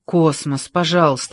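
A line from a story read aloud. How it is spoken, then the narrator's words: Pleading. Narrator (Russian): взмолился Джордж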